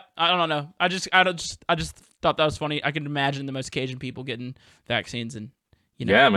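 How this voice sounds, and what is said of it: Usual voice. Nothing is said of it.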